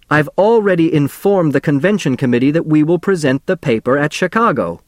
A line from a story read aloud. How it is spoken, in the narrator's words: Professor Niemer shouted